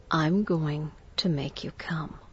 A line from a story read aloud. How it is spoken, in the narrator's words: He whispered in my ear softly